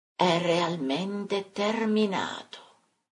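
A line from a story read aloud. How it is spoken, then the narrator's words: Distant disembodied murmur. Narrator (Italian): venendo da lontananze infinite un mormore incorporeo dicesse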